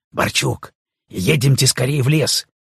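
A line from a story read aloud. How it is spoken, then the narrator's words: Whisper. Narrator (Russian): прошептал он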